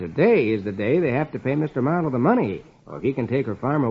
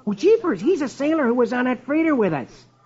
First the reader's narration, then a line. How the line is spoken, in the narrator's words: Rusty exclaims